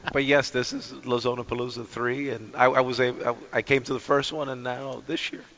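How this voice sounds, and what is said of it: Hoarse, worn-out voice. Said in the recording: “I apologize now for my voice. There's been a lot of talking and the smoke ... losing your voices ... You're screaming at the top of your lungs? ... you sound like an old lady”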